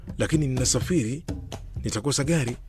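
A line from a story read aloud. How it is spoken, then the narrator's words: Angry reply. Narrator (Swahili): niliwajibu kwa hasira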